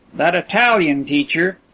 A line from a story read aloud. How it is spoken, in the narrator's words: exclaimed Percy